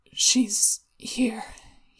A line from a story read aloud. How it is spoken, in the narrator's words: he mumbled